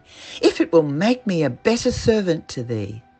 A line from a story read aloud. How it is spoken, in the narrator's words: cried